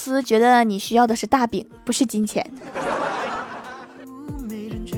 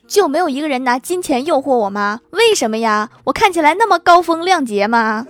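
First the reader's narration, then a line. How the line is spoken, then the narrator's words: Sudden loud. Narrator (Chinese): 我哥突然大声说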